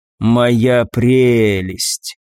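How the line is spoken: Admiring drawl. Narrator (Russian): протянул маг, любуясь камнем

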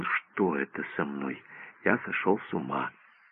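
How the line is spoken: Doctor muttering. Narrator (Russian): Доктор пробормотал

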